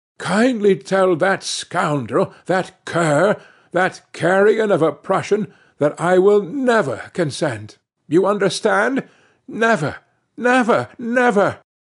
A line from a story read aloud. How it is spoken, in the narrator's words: turning crimson with anger, she gasped out